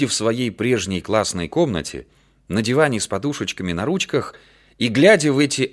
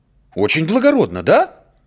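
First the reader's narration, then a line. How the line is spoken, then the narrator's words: Serious, agitated question. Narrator (Russian): спрашивала Наташа так серьезно и взволнованно, что видно было, что то, что она говорила теперь, она прежде говорила со слезами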